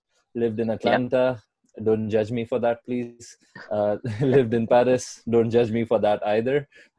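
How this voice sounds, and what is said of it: Indian English accent. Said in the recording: “if you cannot tell by my skin or my accent, I'm from India originally”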